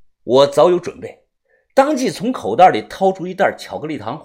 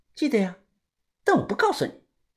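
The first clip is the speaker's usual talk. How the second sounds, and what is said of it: Quiet, hushed voice. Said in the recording (Chinese): “小声的说道”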